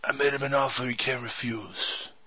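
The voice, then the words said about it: Don Corleone impression. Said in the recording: “best Don Corleone impression I've ever heard in my life”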